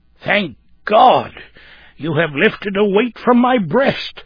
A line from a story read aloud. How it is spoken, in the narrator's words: exclaimed the elder man